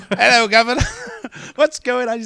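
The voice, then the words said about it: Put-on British accent. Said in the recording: “This is my only British accent I do.”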